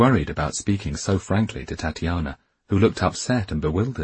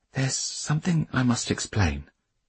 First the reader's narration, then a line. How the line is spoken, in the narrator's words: she said quietly